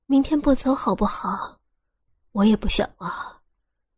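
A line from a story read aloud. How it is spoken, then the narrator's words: Soft whisper. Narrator (Chinese): 小声的对他说道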